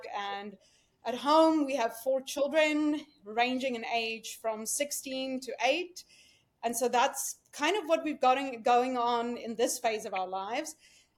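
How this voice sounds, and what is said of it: South African accent. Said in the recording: “if you couldn't tell from my accent, I'm not American... I came here from South Africa.”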